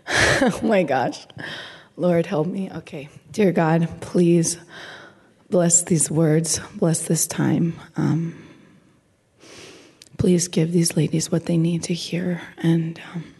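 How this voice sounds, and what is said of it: Raspy voice. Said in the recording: “my beautiful, raspy teacher VBS voice”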